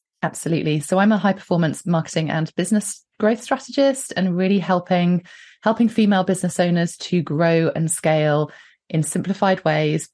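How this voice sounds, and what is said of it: British accent. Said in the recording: “So I'm in the UK. You can probably tell by the accent.”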